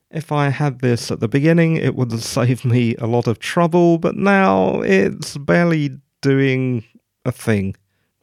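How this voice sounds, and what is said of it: British accent. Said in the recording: “I live in the UK, as you can probably tell from my accent”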